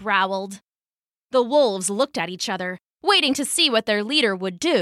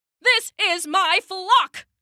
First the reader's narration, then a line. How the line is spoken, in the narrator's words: he bellowed